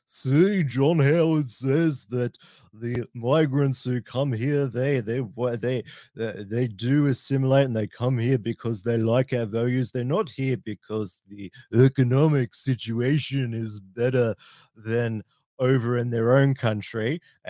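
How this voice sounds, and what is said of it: Imitates another person's voice, badly. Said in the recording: “my terrible John Howard accent”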